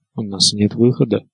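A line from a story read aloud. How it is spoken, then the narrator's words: Muttered. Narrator (Russian): пробормотал Варис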